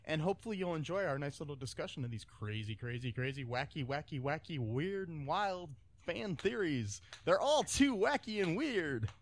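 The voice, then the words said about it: Radio DJ voice. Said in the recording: “I like that DJ voice. ... All of a sudden, you changed into a DJ voice.”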